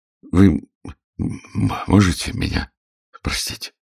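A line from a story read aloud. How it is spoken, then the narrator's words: Stammering. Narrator (Russian): проговорил я, заикаясь, как дурак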